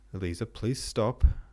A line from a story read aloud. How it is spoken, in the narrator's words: said Prince Andrei, his tone growing more severe